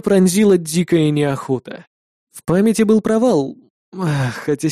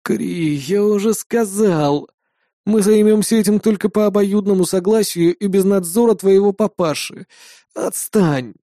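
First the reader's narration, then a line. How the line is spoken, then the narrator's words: Lazy reply. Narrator (Russian): лениво ответил я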